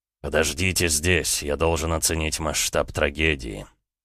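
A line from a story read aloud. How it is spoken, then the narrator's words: Strange voice. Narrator (Russian): странным голосом проговорил Эд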